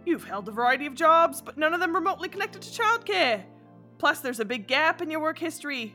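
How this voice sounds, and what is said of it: Attempted Australian accent drifting British. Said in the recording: “why can't I do an Aussie accent? ... I can't get it. Why do I just go British all the time?”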